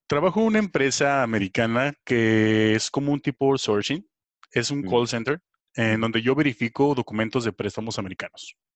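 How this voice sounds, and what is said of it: Radio announcer voice. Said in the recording (Spanish): “Tienes voz de locutor”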